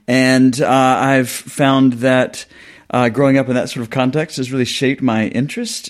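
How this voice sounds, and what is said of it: Southern US accent. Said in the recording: “Clearly, from my accent, it will be quickly discernible to your readers. I'm not from here. I grew up on a farm in the South, but in the South of the U.S.”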